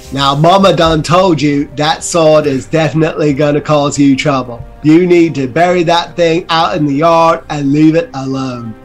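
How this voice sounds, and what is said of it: Put-on accent, shifted pitch and tone. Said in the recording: “What are you doing with your voice? ... I'm trying to find the right accent. ... I'm getting my pitch and tone all in sync.”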